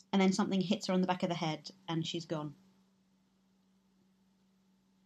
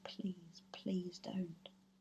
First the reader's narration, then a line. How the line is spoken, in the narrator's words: says her mum quite softly